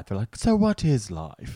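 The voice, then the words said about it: Put-on British accent. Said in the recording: “I do British accent.”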